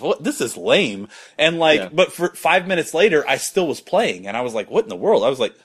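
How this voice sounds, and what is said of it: Usual voice. Nothing is said of it.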